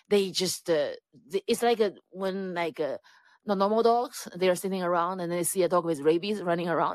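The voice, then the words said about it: Non-native English accent. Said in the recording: “because of my accent”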